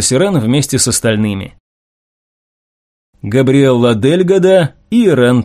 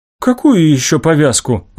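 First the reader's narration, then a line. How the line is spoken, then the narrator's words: Confused question. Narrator (Russian): растерянно спросил Ирен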